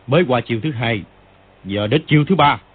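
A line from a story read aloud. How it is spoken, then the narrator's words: Shout. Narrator (Vietnamese): quát lên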